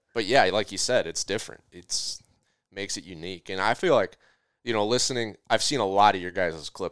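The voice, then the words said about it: Minnesota accent. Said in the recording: “my accent, the Minnesota accent”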